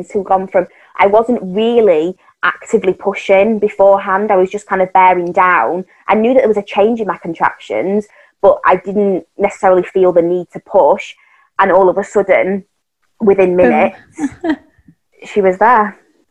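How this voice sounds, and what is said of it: Speaker's own noticeable accent. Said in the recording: “I ate up your accent the whole time ... I know, it's so cute.”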